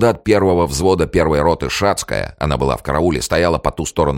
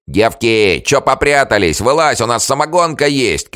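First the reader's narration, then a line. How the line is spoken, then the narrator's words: Several voices shouting. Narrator (Russian): кричали другие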